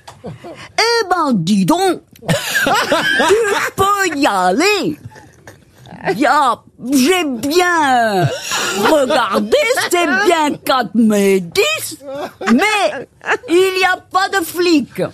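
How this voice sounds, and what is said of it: Badly done Belgian accent. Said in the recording (French): “j'ai jamais vu quelqu'un faire aussi mal à un accent belge.”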